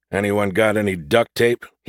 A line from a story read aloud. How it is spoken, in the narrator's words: he asked in a defeated tone